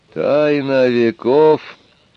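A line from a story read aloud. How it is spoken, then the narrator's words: Strangely thin questioning voice. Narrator (Russian): переспросил затворник странно тонким голосом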